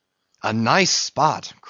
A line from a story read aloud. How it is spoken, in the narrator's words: cried Flask